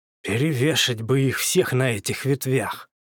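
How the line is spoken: Angry words through teeth. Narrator (Russian): зло процедил Петя, яростно запыхтев

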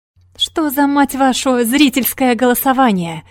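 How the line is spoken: Angry yelling. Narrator (Russian): орал он

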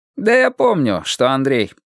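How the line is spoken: Short laugh. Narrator (Russian): коротко засмеялся он

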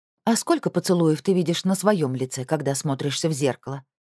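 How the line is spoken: Angry question. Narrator (Russian): зло спросила Шамхет

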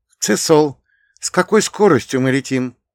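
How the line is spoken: Quiet question. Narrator (Russian): тихо спросила Ирина

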